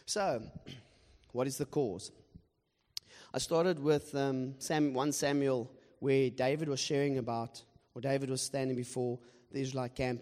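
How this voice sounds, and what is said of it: Hoarse, strained, nearly lost voice. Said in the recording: “That's why my voice is gone. I apologize for that.”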